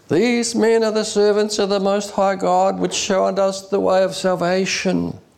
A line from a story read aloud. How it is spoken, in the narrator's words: cried, saying